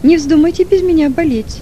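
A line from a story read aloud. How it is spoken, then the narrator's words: Joking tone. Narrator (Russian): говоря при этом шутливым тоном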